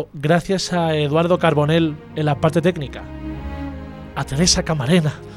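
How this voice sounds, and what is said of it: Usual voice. Nothing is said of it.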